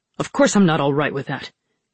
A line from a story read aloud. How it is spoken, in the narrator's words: he snapped